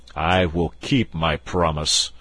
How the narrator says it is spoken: said the king, in a deep voice that showed the anger in his heart

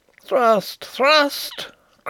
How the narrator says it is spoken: cried Rupert again

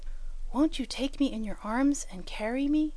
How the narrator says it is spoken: he said in a whisper, for he knew she did not like a loud voice when she was small

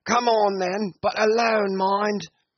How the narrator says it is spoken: after some more shouting from one to the other, Brown called out

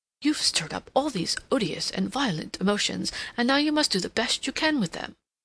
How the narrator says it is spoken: He very nearly exclaimed aloud

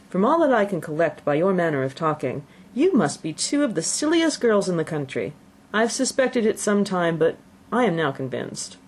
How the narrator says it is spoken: Bennet coolly observed

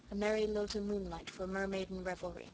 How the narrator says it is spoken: quoted Kenneth softly

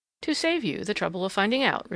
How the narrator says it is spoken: replied the other coolly

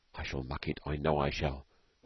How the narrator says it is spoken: whispered Storky uneasily

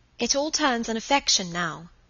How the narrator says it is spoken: said Margaret

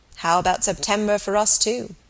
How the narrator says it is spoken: he asked rather dryly

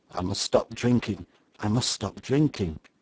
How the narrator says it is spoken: The major muttered

